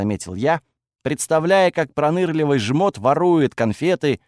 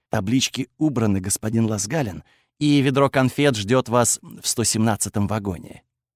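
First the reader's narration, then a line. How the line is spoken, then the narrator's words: Whisper. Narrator (Russian): прошептал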